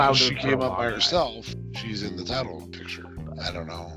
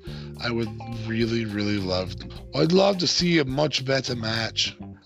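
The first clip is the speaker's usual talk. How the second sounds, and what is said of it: Poor imitation of another person's accent. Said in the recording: “That was my best Nikki accent, which is not good.”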